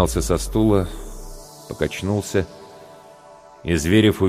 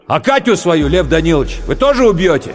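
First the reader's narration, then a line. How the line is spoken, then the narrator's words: Shouting. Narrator (Russian): Романецкий крикнул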